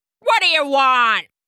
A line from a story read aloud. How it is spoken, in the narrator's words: He barked